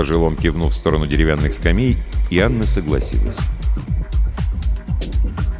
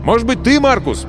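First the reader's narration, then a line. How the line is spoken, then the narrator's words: Shouted. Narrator (Russian): крикнул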